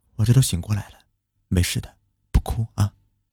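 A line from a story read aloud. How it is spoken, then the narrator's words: Soft, comforting. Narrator (Chinese): 轻声安慰着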